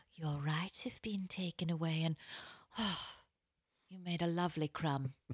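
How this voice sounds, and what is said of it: Imitates another person's British accent. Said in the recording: “British accents”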